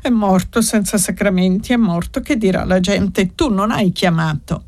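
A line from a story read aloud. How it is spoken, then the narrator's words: Sobbing repetition. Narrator (Italian): Rosa ripeteva singhiozzando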